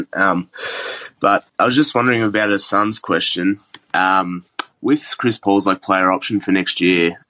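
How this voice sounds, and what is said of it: Australian accent. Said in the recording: “From Australia, if you can't tell by the accent.”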